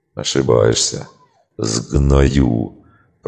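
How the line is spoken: Hissed. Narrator (Russian): прошипел Фоллин

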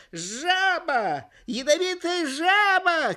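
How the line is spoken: Shouting. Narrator (Russian): кричал он

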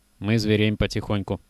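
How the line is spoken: Sad. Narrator (Russian): грустно сказал Кожухов

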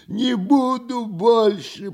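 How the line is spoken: Hoarse croak. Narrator (Russian): прохрипела голова

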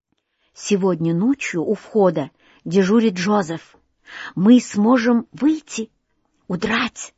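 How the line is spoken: Whisper. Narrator (Russian): шептала Лилиан

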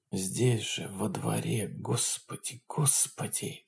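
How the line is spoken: Hoarse wheeze. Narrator (Russian): хрипел кто-то рядом с Леонидом

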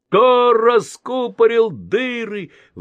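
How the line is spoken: Exclaiming, then wailing. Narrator (Russian): воскликнул самый старший брат и запричитал

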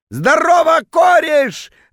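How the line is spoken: Drunken bellow. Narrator (Russian): заорал он дурным пьяным голосом

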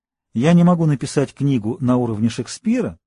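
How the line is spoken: Plain. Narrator (Russian): сказал он

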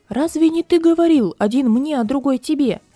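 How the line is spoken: Tailor's shout. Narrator (Russian): Портной закричал

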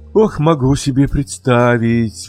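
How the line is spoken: Sighing mother. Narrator (Russian): вздохнула мама

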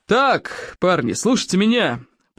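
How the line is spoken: Roaring. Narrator (Russian): проревел Плевака

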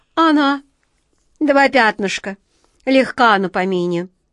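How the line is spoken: Grumbling cat. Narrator (Russian): проворчал кот Васька

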